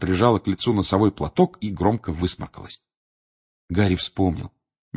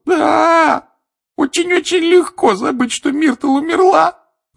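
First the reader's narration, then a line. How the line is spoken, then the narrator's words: Sobbing. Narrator (Russian): рыдала плакса Миртл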